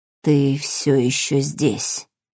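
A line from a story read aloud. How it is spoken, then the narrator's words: Delirious mutter. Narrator (Russian): пробормотал грач в каком-то полубреду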